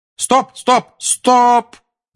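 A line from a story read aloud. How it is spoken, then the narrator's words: Shout. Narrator (Russian): крикнула Анджелина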